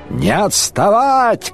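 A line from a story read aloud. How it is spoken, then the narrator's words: Shout. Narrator (Russian): крикнул Шарлей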